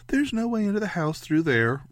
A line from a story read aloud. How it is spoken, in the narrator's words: Ray said brightly